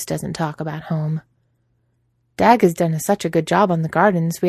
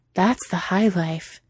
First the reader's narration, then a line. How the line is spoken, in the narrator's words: Cheeto had breathed out